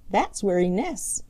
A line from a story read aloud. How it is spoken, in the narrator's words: chuckled Skimmer